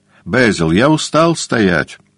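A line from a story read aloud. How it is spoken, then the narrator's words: Sudden exclamation. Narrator (Russian): воскликнул вдруг Дориан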